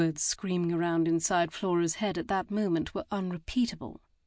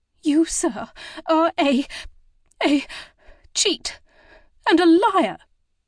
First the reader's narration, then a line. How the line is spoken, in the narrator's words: exclaimed